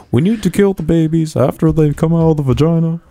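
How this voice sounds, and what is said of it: Imitates politician, Texan twang creeping in. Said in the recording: “Obama impersonation ... A little bit of Hank Hill in there ... You're bringing a little propane into your voice ... That was more of a Bill Clinton”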